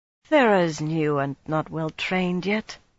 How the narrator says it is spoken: Suroth murmured

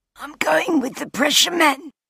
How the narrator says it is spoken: he gasped, the mask muffling his voice

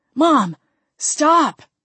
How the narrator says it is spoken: Jamie cried

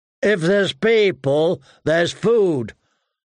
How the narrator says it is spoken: Hot Pie said too loudly

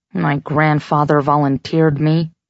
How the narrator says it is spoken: he mumbled

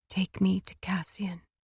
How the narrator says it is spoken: whispered

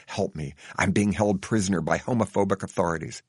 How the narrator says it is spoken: whisper stealthily

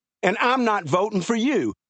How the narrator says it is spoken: Joey yelled

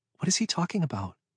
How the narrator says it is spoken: Ashley said quietly

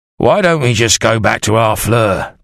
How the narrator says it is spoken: Thomas Evergold grumbled

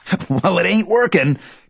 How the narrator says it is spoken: cackles Tommy

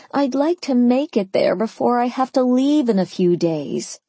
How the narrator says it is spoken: I moaned

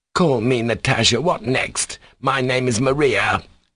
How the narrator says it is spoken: the middle-aged market woman shouted at him

